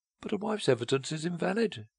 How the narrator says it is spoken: she cried, eagerly seeking the loophole

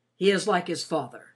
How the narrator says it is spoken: he said rather gruffly

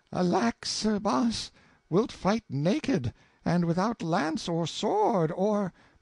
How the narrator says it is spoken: The queen exclaimed

